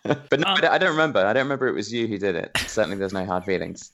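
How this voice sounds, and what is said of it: English British accent. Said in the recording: “So don't let the accent fool you. He's definitely not Korean... I'm British. I'm an English gentleman.”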